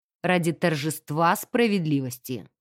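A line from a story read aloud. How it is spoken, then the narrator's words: Calm reminder. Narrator (Russian): напомнил инспектор спокойно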